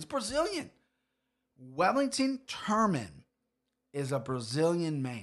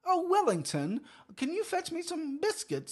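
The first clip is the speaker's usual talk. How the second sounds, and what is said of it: Poor put-on English accent. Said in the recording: “horrible English accent”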